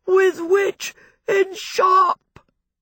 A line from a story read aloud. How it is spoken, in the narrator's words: he wailed